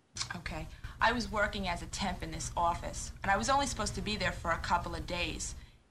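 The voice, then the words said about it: Strong Long Island accent. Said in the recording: “she had such a Long Island accent. Ridiculous.”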